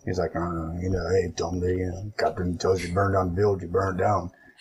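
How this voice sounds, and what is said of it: Growly, gravelly character voice. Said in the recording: “Bert, you know, growly voice, gravelly ... That's better than my Bert impression I've done before. Well done.”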